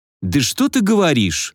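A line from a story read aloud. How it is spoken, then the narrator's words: Exclamation. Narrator (Russian): воскликнул я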